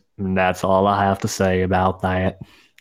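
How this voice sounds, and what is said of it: Put-on southern accent. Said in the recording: “Get that southern accent in there.”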